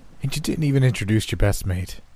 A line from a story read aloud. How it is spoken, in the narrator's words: Grant said in an alarmed tone